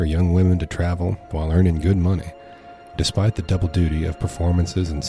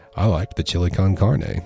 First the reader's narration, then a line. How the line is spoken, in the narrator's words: said